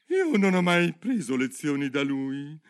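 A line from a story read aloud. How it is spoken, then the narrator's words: Turtle speaking with sigh. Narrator (Italian): disse la tartaruga con un sospiro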